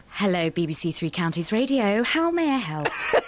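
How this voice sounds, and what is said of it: Put-on posh voice. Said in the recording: “Let's hear them try and do their posh voice... is the best”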